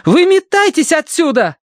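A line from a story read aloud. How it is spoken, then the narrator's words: Yelled. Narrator (Russian): заорала Киврин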